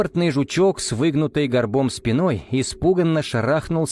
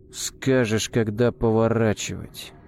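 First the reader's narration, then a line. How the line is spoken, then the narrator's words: Through gritted teeth. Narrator (Russian): Сквозь зубы процедил Арам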